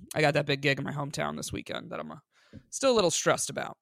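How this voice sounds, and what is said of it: Sick-sounding voice. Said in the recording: “you could probably hear it in my voice a little bit. I woke up pretty sick today.”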